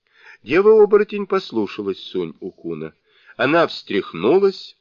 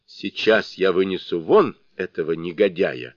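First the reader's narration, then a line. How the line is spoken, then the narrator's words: Plain. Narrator (Russian): ответила им дева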